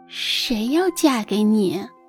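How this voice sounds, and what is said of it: Soft, quiet shy voice. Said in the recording (Chinese): “小声”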